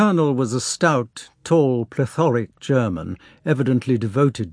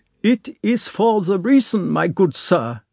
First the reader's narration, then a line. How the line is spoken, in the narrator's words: said he, speaking with a German accent